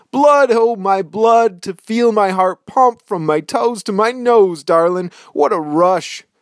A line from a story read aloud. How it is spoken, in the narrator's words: He howls at the moon again